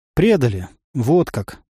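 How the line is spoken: Sighing. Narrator (Russian): вздохнул землянин

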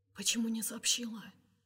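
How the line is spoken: Whispered question. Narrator (Russian): спрашивает Кирилл шепотом

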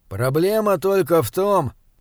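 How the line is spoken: Gloomy. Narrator (Russian): мрачно произнес он

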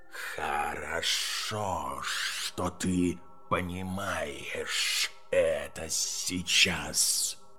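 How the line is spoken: Cold hiss, serpent. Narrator (Russian): холодно прошипела змея

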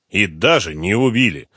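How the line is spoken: Angry general's reply. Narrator (Russian): зло ответил генерал

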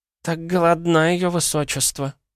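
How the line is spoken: Sighed. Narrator (Russian): вздохнула Марфа

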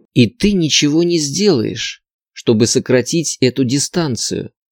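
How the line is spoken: Close intimate whisper. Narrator (Russian): прошептала я, почти касаясь его щеки

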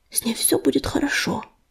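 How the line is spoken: Whisper. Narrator (Russian): шепнул Ежевика

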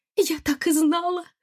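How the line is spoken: Mother's joyful cry. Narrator (Russian): радостно вскрикнула мать

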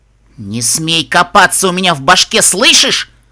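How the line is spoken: Snapping. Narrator (Russian): огрызнулась воительница

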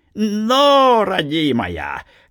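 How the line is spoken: Cheerful old man shouting. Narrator (Russian): весело крикнул старик

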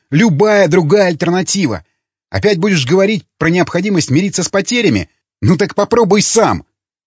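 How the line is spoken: Shouting angrily. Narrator (Russian): Выкрикнув это, Ломака

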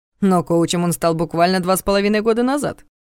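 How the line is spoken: Snorting. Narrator (Russian): хмыкнул Дементьев

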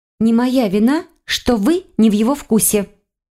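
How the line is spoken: Snapped retort. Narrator (Russian): огрызнулась я

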